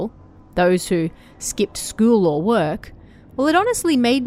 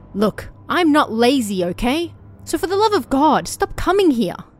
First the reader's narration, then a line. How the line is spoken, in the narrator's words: me yelling at Towa Towa-san